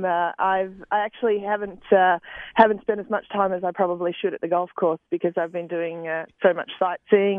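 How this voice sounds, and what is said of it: Australian accent. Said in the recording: “you don't have a Boston accent... It just doesn't sound like an accent we're used to... I'm Australian”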